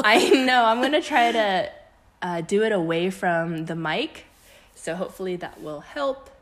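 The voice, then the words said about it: Raspy voice. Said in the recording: “my voice is a little raspy today, so excuse me if I am constantly clearing my throat”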